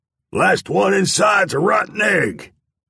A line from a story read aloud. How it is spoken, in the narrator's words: a man shouted just outside the door